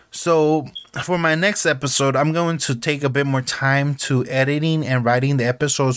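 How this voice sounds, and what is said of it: Heavy non-native English accent. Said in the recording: “my accent could be very heavy at times”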